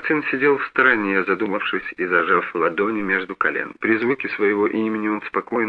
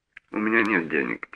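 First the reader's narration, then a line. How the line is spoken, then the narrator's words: Quiet reply. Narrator (Russian): тихо ответил Мартин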